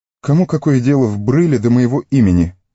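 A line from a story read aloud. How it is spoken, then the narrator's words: Angry. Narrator (Russian): сердито сказал Фродо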